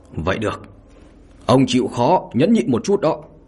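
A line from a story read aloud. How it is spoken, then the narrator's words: Loud shout through gritted teeth. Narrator (Vietnamese): Lâm Cửu Thúc biết là không còn cách nào khác, liền nghiến răng hét lớn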